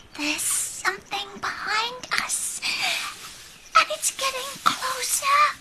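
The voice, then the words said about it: Whispering. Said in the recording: “Whispered Hope. ... Why are you whispering like that?”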